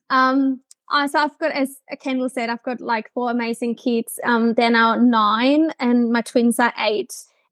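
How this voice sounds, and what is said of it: Slight German accent. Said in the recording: “I'm originally from Germany, so you will hear a little bit of an accent”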